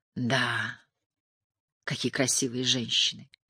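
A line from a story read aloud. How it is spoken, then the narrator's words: Sighing. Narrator (Russian): вздохнула Молли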